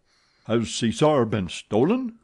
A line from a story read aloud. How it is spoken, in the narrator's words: cried the acting manager